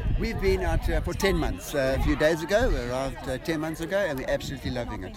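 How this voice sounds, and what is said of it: South African accent. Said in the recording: “your distinct South African accent”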